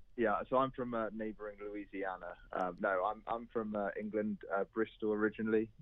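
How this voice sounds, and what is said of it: English accent. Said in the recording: “you don't sound like you have a native accent for southern Mississippi... unless there's an English colony”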